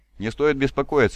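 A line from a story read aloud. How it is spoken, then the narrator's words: Laughing. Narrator (Russian): рассмеялся Випус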